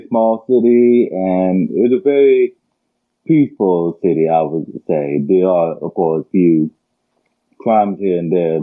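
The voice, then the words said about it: Distinct accent blending several accents. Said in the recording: “you have a very distinct accent there ... an amalgamation of multiple accents”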